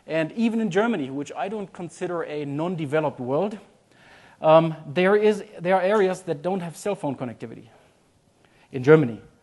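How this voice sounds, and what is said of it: Slight German accent. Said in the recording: “As you might hear from my name and some of my accent, I'm a German.”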